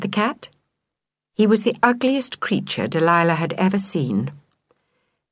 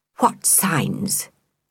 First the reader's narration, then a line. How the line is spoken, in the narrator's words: hissed